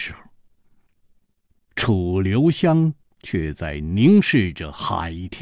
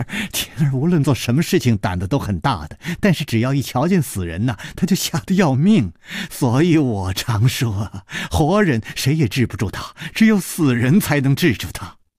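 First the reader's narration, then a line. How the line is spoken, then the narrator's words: Said laughing. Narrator (Chinese): 李红秀笑着说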